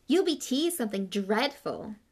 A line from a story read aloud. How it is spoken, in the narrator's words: said Myrtle happily